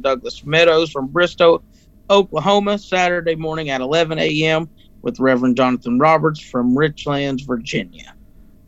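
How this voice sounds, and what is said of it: Fast-talking radio announcer voice. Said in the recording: “That was my little, announcer voice at the end of things. Talks real fast.”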